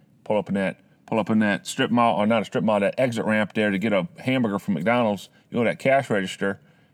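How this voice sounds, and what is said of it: Bad put-on Southern drawl. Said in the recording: “you get that little bit of a southern drawl there ... That's the worst southern accent ever.”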